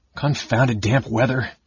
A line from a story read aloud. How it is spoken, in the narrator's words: he muttered